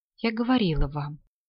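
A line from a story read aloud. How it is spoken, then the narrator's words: Quiet. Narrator (Russian): тихо сказала Клара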